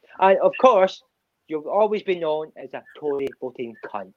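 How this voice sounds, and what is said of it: Put-on accent that sounds Scottish. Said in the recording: “every accent you do is pure Scottish”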